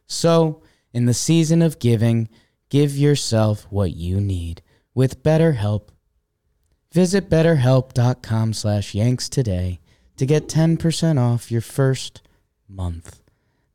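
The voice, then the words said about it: Calm, soothing relaxed voice. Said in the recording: “I'm now talking in my relaxed therapy voice.”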